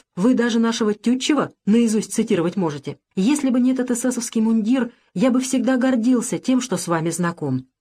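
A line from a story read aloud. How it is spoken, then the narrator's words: Fervent exclamation. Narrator (Russian): пылко воскликнул Александр Сергеевич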